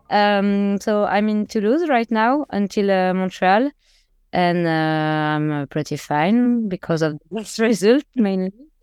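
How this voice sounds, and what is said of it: Speaks English with an accent. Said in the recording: “sorry in advance for first my accent ... You can never apologize for an accent.”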